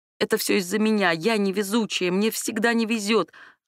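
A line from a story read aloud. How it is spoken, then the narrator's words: Sobbing. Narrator (Russian): она продолжала всхлипывать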